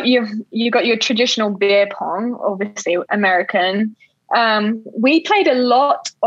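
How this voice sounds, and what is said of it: Usual voice. Nothing is said of it.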